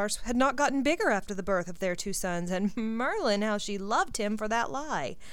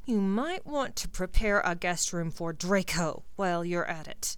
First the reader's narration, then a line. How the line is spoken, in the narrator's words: Ginny growled